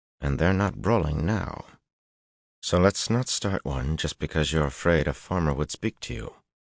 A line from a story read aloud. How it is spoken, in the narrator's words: said through his teeth